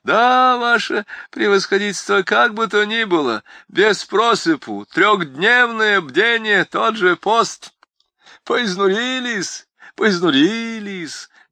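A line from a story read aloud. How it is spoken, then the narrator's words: Speaking while laughing. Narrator (Russian): говорил Чичиков, продолжая смеяться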